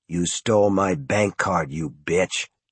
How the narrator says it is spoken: Norman said in a low voice

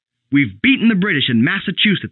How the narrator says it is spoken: he shouted

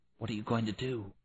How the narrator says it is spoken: Melanie whispered

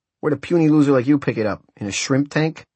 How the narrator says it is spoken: snarled Chacho

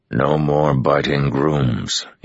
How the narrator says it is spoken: he growled at the stallion

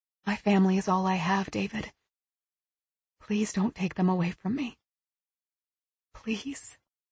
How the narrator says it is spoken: she whispered

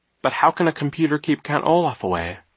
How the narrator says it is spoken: Violet asked in a puzzled voice

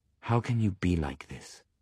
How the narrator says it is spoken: I whisper

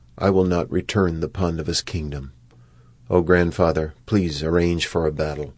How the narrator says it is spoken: he spoke in a low voice

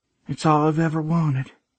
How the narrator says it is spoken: she added, her voice breaking

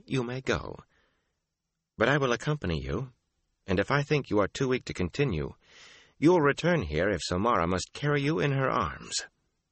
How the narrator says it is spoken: she said calmly

